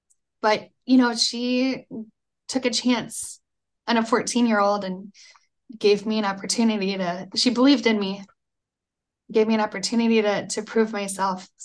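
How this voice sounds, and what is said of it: Emotional, choked-up voice. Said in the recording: “I had such an emotional knot in my throat ... you can almost hear the emotion in my voice here ... I have to pull myself together”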